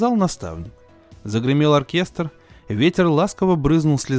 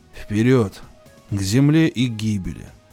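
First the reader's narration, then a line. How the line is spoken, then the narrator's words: Whispered. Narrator (Russian): прошептал Этил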